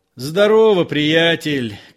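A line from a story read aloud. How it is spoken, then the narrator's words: Shout. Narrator (Russian): крикнул Остап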